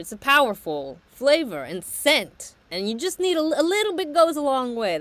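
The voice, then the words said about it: Thick regional accent. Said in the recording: “your accent was so thick I didn't hear you correctly... It's my accent.”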